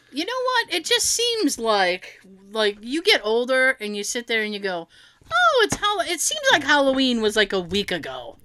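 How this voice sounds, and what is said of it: New England accent. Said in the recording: “we are in New England, if you couldn't tell by the accents.”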